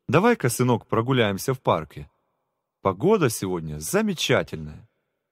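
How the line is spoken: Cheerful fatherly suggestion. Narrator (Russian): Виктор Павлович, отец Миши, весело предложил

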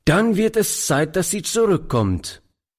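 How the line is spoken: Old man calling. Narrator (German): rief der Alte

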